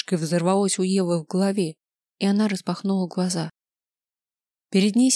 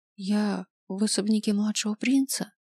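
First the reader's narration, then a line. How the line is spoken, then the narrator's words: Weak whisper. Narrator (Russian): слабым голосом прошептала Ева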